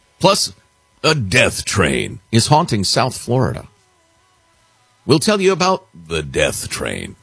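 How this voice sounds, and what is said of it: Spooky, scary voice. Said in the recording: “When you use that voice, it sounds very scary. ... It's a scary voice.”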